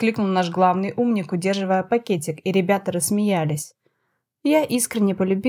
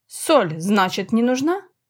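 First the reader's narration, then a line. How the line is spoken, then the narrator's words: Snort. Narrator (Russian): хмыкнул Матар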